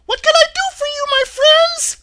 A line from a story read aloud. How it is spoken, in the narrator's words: the Queen herself, who asked in her squeaky little voice